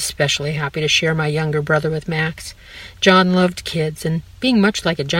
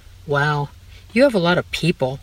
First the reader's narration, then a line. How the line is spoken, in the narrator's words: Max sighed